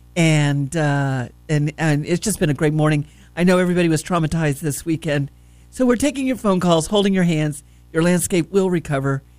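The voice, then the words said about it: Voice affected by a cold. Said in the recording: “I've got a little bit of a cold today. Please excuse me.”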